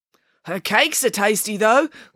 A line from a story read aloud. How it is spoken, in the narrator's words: called out a younger journalist